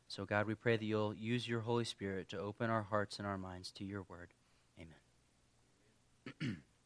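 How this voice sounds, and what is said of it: Strained, failing voice. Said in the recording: “I've kind of been losing my voice. I've been having a pretty rough week of allergies.”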